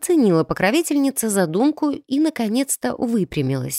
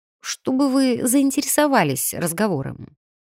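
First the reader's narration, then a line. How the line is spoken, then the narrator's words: Muttered. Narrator (Russian): пробормотала я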